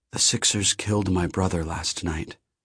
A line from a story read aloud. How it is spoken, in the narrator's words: he said, almost whispering